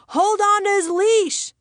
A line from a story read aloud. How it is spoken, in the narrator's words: I screamed